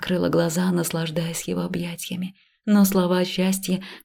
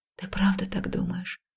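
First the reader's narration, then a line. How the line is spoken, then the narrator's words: Muffled whisper against chest. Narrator (Russian): прошептала я, уткнувшись в его грудь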